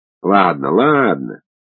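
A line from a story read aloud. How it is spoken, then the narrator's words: Conciliatory grumble. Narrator (Russian): примирительно проворчал комиссар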